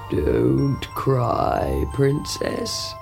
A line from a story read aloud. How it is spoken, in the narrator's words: croaked a voice